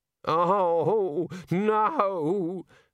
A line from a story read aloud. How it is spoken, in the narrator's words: the senior wrangler moaned